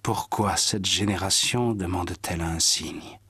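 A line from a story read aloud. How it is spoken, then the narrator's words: Sighing. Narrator (French): Jésus soupira et dit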